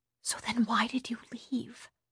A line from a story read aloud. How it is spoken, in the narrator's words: asked softly